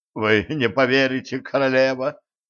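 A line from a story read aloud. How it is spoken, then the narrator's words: Moaning. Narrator (Russian): простонал сплинтер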